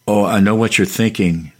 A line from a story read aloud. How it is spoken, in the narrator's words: the half-caste said